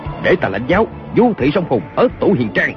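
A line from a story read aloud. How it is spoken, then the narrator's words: Shout. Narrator (Vietnamese): Kiều Phong quát lên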